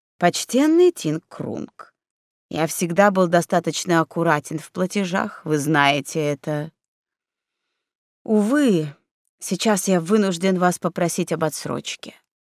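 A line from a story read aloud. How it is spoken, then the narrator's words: Very calm merchant. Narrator (Russian): Купец очень спокойно ответил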